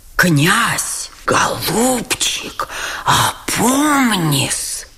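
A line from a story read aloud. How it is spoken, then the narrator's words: Horrified whisper. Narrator (Russian): с ужасом шепнул генерал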